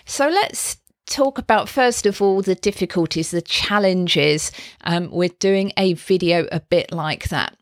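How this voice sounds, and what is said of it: Croaky, hoarse voice. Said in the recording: “I am a bit croaky today”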